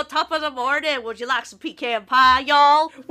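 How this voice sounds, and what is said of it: Mixed Scottish-Southern put-on accent. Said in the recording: “weird accent that sounds like half Southern, half Scottish? ... the mom's accent is like really hard to place. It's like a Scottish, but Midwestern, but Southern ... With a bit of Minnesotan in there, too.”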